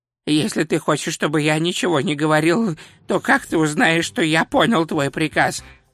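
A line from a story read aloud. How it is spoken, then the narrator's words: Hiss. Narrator (Russian): прошипел он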